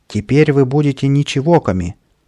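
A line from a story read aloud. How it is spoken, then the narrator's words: Shout. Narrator (Russian): Каприска крикнул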